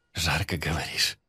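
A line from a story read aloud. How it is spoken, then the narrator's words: Whispered. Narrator (Russian): Прошептал я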